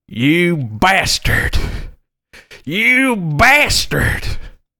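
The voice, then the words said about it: Angry shouting voice. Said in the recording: “he's shouting, and it's getting closer and closer”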